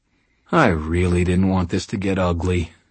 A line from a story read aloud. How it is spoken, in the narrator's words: said sadly